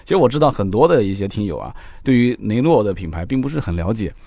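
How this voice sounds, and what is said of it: Nanjing accent, mixing L and N. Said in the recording (Chinese): “南京口音，了了不分。雷诺两个字呢，开头的这个音啊，都是一个 L 一个 N”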